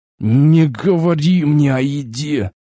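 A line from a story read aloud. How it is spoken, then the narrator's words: Strained hiss through teeth. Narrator (Russian): Сквозь зубы с трудом прошипел я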